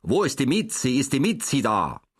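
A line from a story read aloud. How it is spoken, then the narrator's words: Sharp question. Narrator (German): fragte Herr Jakob noch unter der Türe scharf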